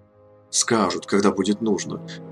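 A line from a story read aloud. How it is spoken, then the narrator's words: Muttering under breath. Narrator (Russian): бурчал Кангар себе под нос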